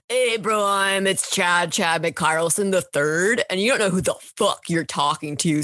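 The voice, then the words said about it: Frat boy voice impression. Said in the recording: “my frat boy impression”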